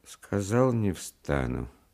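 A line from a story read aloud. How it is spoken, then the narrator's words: Strange, dispassionate voice. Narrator (Russian): повторил он каким-то чужим, бесстрастным голосом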